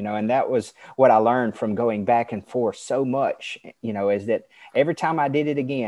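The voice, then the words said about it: Southern American accent. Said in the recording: “you're from the South of America. We can tell by your accent.”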